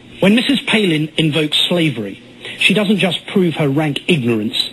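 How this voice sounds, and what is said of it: Posh high-class British accent. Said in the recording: “the pseudo-high-class British voice ... British accents”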